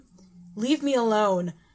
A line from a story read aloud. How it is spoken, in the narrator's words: Will groaned